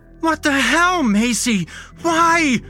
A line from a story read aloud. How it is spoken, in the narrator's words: Max is screaming